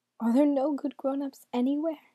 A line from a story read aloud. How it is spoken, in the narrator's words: she cried